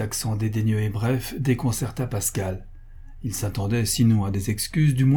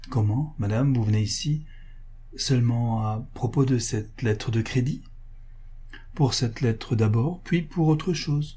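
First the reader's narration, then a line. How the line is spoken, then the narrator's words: Nearly stammering. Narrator (French): lui dit-il, presque en balbutiant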